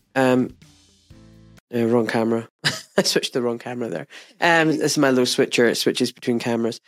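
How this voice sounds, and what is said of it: Congested, stuffy voice. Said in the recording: “I'm a bit bunged up still. ... I've got a bit of a cold.”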